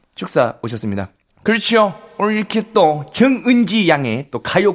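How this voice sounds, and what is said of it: Hoarse impression of a veteran singer. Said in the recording (Korean): “다양한 선배 가수들 목소리로 ... 목이 쉬시기 때문에 그런 버전으로 자연스럽게 가면 되죠 ... 스케줄 많으신 선생님들 버전으로”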